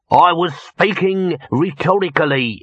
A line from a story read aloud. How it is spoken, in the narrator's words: snapped Throat